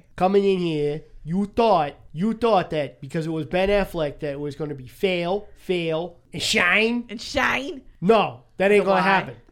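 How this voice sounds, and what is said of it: Put-on Boston accent. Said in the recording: “in your best Boston accent”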